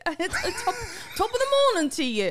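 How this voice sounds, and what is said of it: Put-on Irish accent. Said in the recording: “talk like this in Irish ... when you were doing Irish, you were popping the...”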